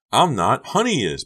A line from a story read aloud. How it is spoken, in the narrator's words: Becca shrieked